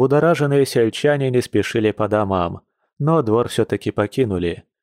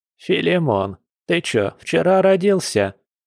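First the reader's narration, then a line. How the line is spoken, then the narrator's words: Displeased old woman grumbling. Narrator (Russian): недовольно проворчала старушка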